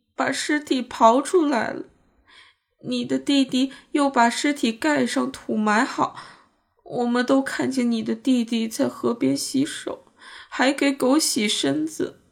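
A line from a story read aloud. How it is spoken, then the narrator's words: Tearful, near crying. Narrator (Chinese): 一个含泪欲哭的声音说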